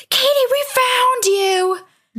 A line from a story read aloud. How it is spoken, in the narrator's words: both saw it and screamed